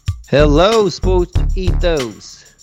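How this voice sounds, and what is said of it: Attempted British accent. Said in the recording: “I don't know the British accent ... I like that accent.”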